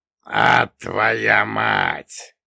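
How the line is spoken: Giant's chilling hissed whisper. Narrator (Russian): прошипел великан, понижая голос до леденящего шепота

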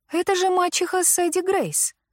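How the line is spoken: Exclaimed. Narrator (Russian): воскликнула Лили

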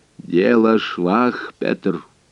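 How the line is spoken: Muffled and solemn. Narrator (Russian): глухо и торжественно произнес наконец он

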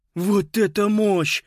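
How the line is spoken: Awed exhale. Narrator (Russian): выдохнул Питер

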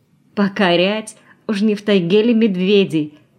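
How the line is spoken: Bursting into laughter. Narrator (Russian): расхохоталась Валя

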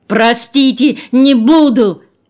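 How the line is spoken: Shout. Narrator (Russian): Он еще успел крикнуть

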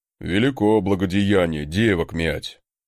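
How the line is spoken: Grumbling. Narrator (Russian): проворчал он

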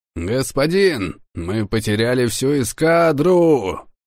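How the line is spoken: Bitter shout. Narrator (Russian): прокричал Мартин Лерой, с горечью

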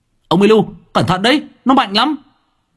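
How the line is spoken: Shouting. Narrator (Vietnamese): Tôi hét lên

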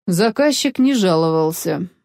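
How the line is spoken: Gloomy. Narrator (Russian): мрачно сказал Федерико

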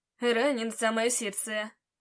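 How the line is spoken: Joking reply. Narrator (Russian): шутливо ответил он

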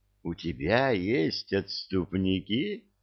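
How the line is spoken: Purring over phone. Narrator (Russian): промурлыкала трубка

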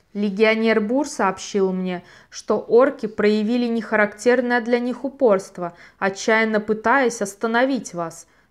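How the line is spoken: Plain. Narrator (Russian): сказал Желиман Иесу

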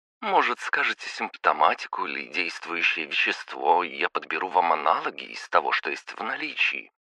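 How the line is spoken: Obliging, melodic female voice. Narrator (Russian): услужливо предложила аптекарша своим мелодичным голоском

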